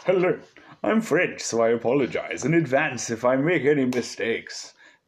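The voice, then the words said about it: Put-on British accent. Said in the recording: “doing a British accent for French”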